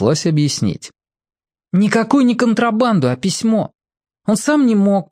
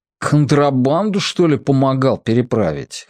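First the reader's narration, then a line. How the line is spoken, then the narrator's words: Elephant snorting. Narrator (Russian): хмыкнул слон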